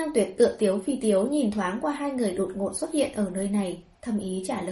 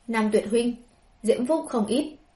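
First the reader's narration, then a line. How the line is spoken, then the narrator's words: Cold. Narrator (Vietnamese): lạnh lùng nói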